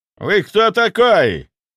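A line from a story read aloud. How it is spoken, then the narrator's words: Energetic roar, older man. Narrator (Russian): Он взревел с энергией, которой я не ожидал от человека его возраста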